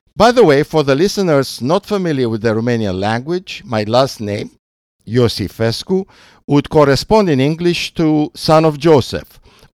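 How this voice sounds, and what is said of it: Romanian-accented English. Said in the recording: “whose English, after many years in the States, still has a Romanian accent.”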